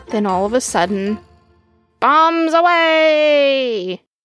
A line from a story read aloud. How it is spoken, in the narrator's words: He shouted